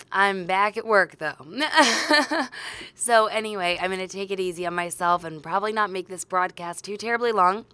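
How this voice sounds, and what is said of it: Voice affected by a cold. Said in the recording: “tell from my voice, I'm getting over some kind of terrible cold”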